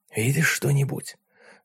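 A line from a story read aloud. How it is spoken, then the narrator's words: Whisper. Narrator (Russian): прошептал он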